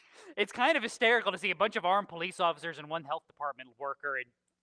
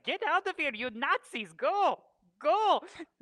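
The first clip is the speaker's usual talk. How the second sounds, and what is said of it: Bad put-on Polish-Canadian accent. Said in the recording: “I'm doing a bad Polish-Canadian accent”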